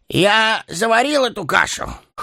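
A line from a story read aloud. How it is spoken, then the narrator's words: Forced cheerful snort. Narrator (Russian): хмыкнул он, стараясь казаться веселым и беззаботным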